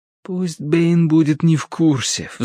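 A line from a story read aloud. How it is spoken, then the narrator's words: Pleading. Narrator (Russian): взмолился я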